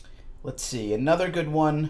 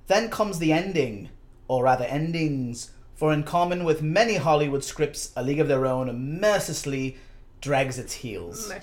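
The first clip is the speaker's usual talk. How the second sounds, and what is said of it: Put-on British accent. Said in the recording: “we'll do it in a British accent ... a very good John Lennon impression”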